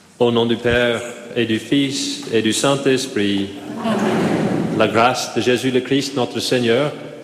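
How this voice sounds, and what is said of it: Slight Irish accent in French. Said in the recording (French): “with a little Irish accent”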